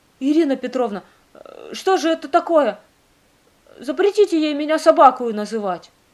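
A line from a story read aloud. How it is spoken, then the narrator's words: Agitated voice. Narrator (Russian): Александра Ивановна взволнованным голосом заговорила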